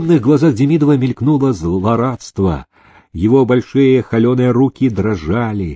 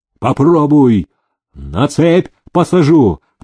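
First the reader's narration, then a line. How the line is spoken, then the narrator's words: Thunderous enraged shout. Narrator (Russian): прогремел на все хоромы голос разбушевавшегося Никиты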